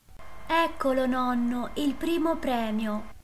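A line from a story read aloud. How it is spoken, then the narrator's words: Exclaiming. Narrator (Italian): esclamò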